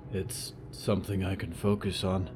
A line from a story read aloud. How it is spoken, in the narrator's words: Moth said quietly